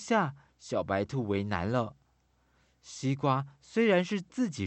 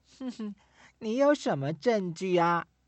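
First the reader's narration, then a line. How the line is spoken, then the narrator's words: Sly laugh. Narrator (Chinese): 懒狐狸狡黠地笑一笑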